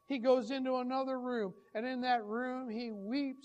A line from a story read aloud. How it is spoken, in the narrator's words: he cries